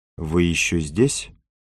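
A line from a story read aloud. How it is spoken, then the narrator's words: Quiet question. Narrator (Russian): Опомнившись, она тихо спросила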